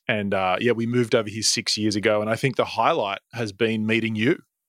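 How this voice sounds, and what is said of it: Speaks with a foreign accent. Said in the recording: “This wonderful accent, which tends to lure people in.”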